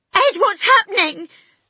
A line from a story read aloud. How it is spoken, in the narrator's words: She screamed